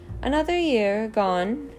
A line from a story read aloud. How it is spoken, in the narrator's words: Dumbledore said cheerfully